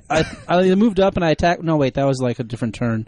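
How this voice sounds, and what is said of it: Rambling, self-correcting battle report impression. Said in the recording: “I did a impression of a Crump Battle Report, and it was pretty good. It was pretty spot on ... It was almost exactly like”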